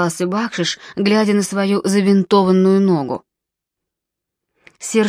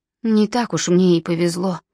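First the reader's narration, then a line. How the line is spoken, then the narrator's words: Sighing. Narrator (Russian): вздохнул Бакшиш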